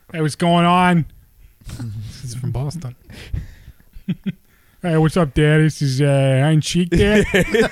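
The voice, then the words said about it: Put-on Boston-style character voice. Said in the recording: “You sound like Ted. ... You sound like a cross between Ted and your governor of Minnesota bit.”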